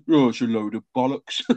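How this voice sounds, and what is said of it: Put-on Brummie accent. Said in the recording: “my dad just went in his Brummy accent”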